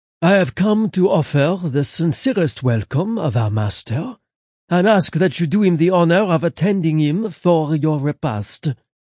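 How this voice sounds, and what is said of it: Smooth, heavy French accent. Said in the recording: “his French accent smooth and heavy, but his words were perfectly understandable, as was his annoyance”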